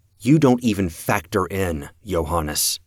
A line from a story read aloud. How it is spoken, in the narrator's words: I said, my voice hard